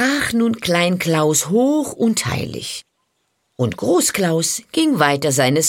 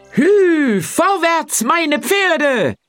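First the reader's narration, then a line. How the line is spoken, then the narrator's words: Calling out. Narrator (German): rief Lügnerin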